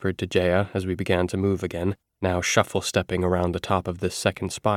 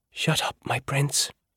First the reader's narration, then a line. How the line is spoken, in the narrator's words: whispered back